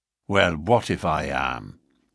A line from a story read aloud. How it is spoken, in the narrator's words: McMurdo answered in a surly voice